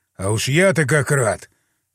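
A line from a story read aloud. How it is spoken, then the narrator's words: Wry snort. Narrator (Russian): Хмыкнул я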